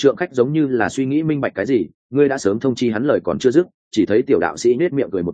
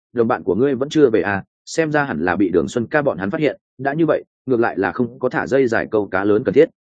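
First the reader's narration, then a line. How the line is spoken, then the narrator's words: Young priest muttering. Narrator (Vietnamese): tiểu đạo sĩ lẩm bẩm nói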